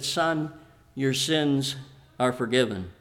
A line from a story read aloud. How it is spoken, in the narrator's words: Jesus, who probably up to this time had calmly continued to teach, stopped, and looking at Andrew, he said